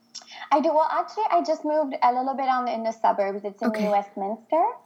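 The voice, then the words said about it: Quebec French accent in English. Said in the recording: “your beautiful accent ... I am from the French part of Canada ... Quebec”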